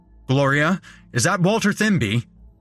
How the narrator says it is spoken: A man bellowed

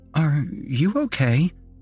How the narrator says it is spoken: the nurse asked hesitantly

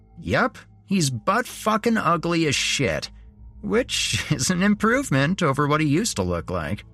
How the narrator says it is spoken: Jeremy said with a laugh

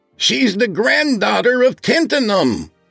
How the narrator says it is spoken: he shouted through the door

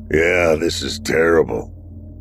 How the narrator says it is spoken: the night watchman moaned

